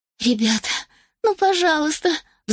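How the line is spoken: Pleading. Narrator (Russian): взмолилась Рос

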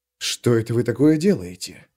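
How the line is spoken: Whispered. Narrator (Russian): прошептал Лео

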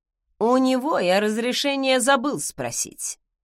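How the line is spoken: Snorting. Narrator (Russian): хмыкнул он

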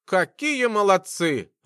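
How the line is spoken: Laughing. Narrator (Russian): расхохотался

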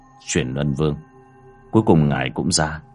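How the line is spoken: Soft. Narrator (Vietnamese): Bác cổ miệng khẽ nói

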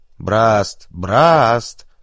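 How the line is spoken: Distant shout from room. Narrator (Russian): закричали из кабинета

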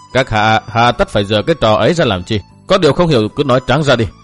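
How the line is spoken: Cold reply. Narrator (Vietnamese): Y lạnh lùng đáp

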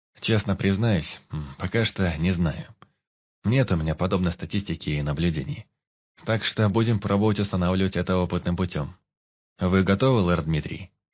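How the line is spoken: Perfectly calm, even voice. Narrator (Russian): ответил ему Алекс абсолютно спокойным и ровным голосом

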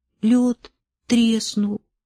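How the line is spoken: Plain. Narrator (Russian): сказал Имре

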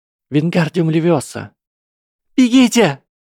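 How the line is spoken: Shrieking. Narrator (Russian): завопила Ханна

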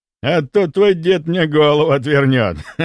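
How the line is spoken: Added with a chuckle. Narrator (Russian): Добавил он и хохотнул

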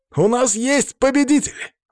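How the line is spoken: Excited shout. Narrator (Russian): возбужденно крикнул ведущий

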